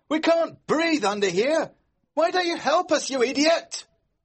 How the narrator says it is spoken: we heard George shout

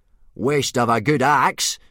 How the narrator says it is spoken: grunted Gobber

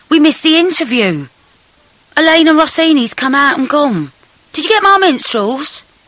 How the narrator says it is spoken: yelled

